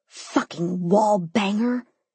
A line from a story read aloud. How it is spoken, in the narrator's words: I hissed